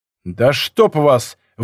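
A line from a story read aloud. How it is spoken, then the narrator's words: Barking again. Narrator (Russian): вновь рявкнул Акено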